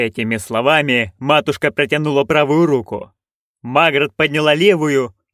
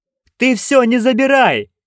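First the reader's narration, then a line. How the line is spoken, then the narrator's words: Shout. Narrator (Russian): крикнула Маград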